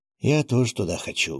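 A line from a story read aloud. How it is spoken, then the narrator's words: Deep sigh. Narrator (Russian): глубоко вздохнул помощник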